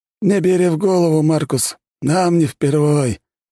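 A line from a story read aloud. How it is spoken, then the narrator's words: Sigh. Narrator (Russian): вздохнул Федор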